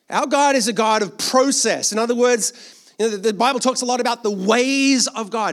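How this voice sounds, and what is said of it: Australian accent with American influence. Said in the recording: “I'm an Australian with a somewhat mutated accent now ... apparently I sound American to Australians and Australian to Americans ... 10 years in New York”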